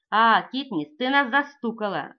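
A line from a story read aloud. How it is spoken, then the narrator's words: Joyful. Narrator (Russian): радостно говорит Битти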